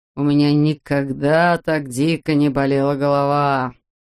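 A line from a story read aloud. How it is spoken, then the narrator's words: Moaning in pain. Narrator (Russian): стонал хирург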